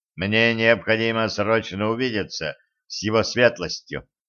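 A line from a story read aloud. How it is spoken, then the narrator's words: Sharp reply. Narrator (Russian): резко ответил Кощей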